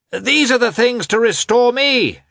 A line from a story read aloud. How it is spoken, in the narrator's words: shouted Petritsky on seeing the newcomers